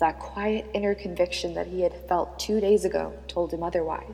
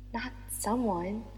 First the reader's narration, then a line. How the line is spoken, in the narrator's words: said Naomi softly